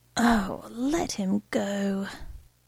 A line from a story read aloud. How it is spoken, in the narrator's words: says wearily